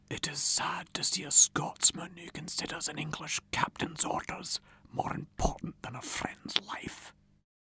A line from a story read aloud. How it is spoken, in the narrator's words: Rob Roy whispered to Ewan